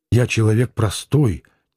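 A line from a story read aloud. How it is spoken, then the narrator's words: Quiet, offended interjection. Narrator (Russian): тихо и обиженно вставил Диомидов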